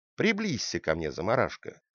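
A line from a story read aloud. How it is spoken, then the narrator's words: Plain. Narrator (Russian): сказал принц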